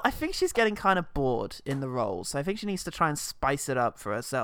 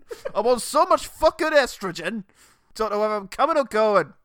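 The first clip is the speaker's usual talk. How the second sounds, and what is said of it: Exaggerated northern English man's accent. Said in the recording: “she's gone for a really awful northern man”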